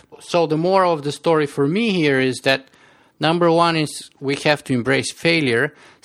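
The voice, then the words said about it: Strong Bulgarian accent. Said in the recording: “I have a very strong Bulgarian accent”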